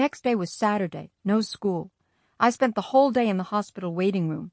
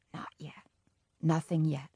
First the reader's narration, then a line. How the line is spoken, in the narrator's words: He whispered to my mother